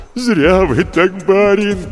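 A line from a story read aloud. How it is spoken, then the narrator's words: Moaning. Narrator (Russian): простонал Егорыч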